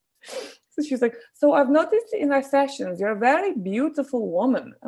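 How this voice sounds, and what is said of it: Put-on accent imitating a woman. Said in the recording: “this accent is offensive ... there's really no way of capturing the mood of this woman without doing the voice”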